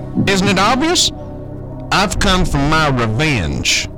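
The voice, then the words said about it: Put-on southern accent. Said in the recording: “I also picked up this sweet-ass southern accent. The ladies love it.”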